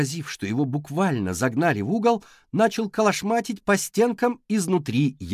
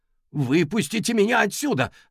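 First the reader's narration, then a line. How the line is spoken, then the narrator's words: Shout. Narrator (Russian): закричал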